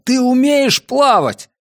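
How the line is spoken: Shouted. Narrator (Russian): я крикнул

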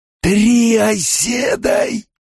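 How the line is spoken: Hissed, surprised dusty voice. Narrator (Russian): прошипел получеловек, удивленный голос будто осыпался мертвой пылью

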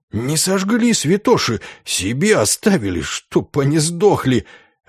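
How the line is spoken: Delighted whisper. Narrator (Russian): С восторженным шепотом

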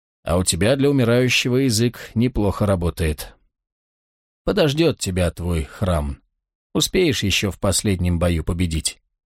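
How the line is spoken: Irreverent mocking grumble. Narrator (Russian): Волкодав самым кощунственным образом усмехнулся и проворчал

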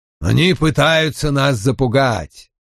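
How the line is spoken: Through gritted teeth. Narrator (Russian): процедил Том

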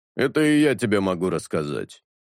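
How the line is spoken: Grumbling burly man. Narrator (Russian): проворчал плешивый здоровяк

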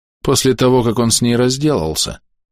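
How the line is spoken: Gloomy addition. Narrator (Russian): мрачно добавляет Эверетт

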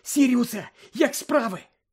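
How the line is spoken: Exclaimed. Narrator (Ukrainian): вигукнув

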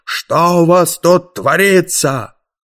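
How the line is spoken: Loud yell. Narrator (Russian): знакомый голос заорал

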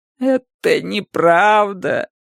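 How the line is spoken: Weak moaning. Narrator (Russian): простонала Джилл, но ее голос был слаб

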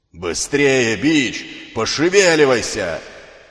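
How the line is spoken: Wild roaring shout. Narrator (Russian): кричал дикий, ревущий голос

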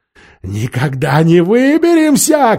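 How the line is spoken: Shouting. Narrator (Russian): крикнул он

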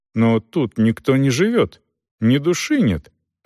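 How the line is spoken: Bewildered. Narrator (Russian): растерянно проговорила Дорс

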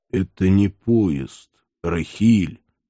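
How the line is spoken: Hoarse, strained voice. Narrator (Russian): осевшим голосом выдавил Иван

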